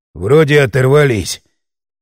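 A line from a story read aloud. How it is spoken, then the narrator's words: Hoarse wheeze. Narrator (Russian): просипел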